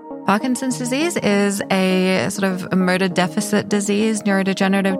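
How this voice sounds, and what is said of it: Australian accent. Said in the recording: “it's my Australian accent”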